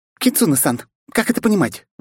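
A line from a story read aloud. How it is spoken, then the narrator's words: Indignant squeak. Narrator (Russian): возмущенно пискнула она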